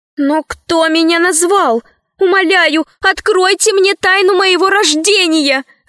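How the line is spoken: Crying out in tears. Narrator (Russian): закричала рабыня, и обильные слезы полились из ее прекрасных глаз

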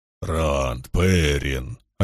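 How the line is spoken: Worried booming voice. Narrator (Russian): обеспокоенно прогудел Лоэл

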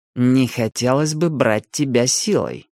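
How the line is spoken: Through gritted teeth. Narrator (Russian): процедил Милос

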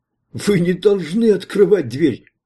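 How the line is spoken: Yell. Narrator (Russian): завопил Кент

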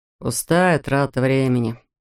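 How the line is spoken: Muttering. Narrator (Russian): пробормотал Рэтчет

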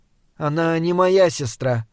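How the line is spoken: Sad. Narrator (Russian): грустно сказала Мария

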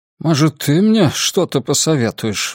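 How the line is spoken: Grumbled. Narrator (Russian): буркнул Гарпаго

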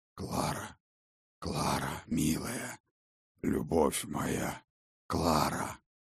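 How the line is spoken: Whisper. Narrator (Russian): Шепот Сфайрата

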